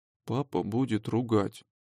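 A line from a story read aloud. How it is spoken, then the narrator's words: Mutter. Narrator (Russian): бормочет Илюшка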